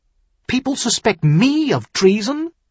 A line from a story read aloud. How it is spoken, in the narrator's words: Tyrion demanded sharply